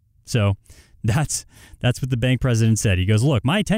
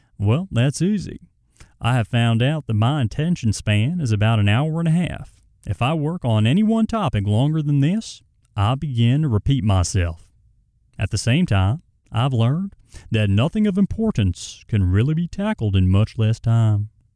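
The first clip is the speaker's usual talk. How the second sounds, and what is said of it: Put-on Southern accent. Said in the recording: “a Southern accent. I'm just switching it up on you.”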